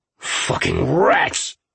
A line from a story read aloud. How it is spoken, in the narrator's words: Fred snarled